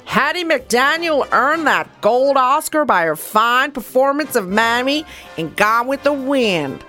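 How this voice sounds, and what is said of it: Drifting Southern and New York accent. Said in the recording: “I don't know what the hell happened to my accent through that. I just went Southern. I went New Yorker.”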